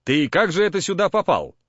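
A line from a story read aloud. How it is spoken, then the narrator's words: Stern question. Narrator (Russian): строго спросил у него Стрекачев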